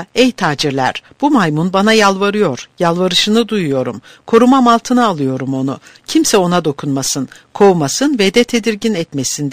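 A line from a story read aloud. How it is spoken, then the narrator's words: Plain. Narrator (Turkish): dedi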